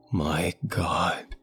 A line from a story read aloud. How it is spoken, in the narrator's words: gasp